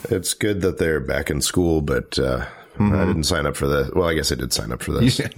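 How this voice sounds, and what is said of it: Deep, low voice from a cold. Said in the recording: “my voice is much lower. I have a little bit of a cold ... You got the Barry White voice going ... It's NPR now ... I get a cold and I get my NPR voice”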